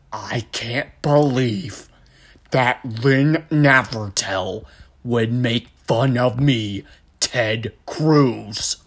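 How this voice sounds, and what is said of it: Ted Cruz voiced like Kevin from The Office. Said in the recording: “I imagine you just sound like Kevin from The Office”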